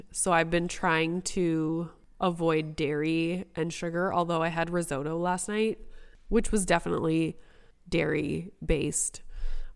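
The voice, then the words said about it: Hoarse, croaky voice. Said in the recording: “My voice is just, am I Celine Dion? Because I sound like a frog.”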